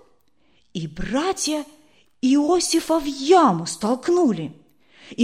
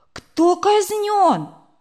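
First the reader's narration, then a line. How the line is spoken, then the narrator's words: Sudden exclamation. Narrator (Russian): вдруг Сережа воскликнул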